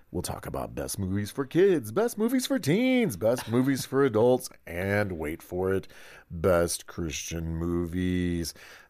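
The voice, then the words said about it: Announcer-style radio voice. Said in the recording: “radio voice ... You did that well.”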